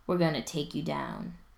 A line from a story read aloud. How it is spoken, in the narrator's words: tells him in an undertone